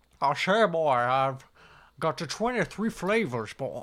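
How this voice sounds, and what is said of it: Foghorn Leghorn crossed with Sean Connery. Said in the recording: “Foghorn Leghorn mixed with Sean Connery”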